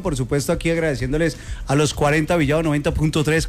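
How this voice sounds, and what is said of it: Radio announcer voice. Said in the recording (Spanish): “pura voz de locutor”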